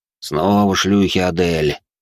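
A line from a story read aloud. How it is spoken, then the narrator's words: Displeased voice. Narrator (Russian): недовольным голосом произнес Тьерри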